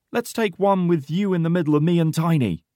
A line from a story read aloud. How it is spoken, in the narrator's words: shouts Porter with a big smile